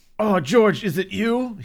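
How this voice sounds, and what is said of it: Startled, jolted exclamation. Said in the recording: “my best got shot impression”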